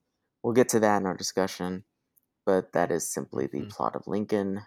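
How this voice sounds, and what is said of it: Usual voice. Nothing is said of it.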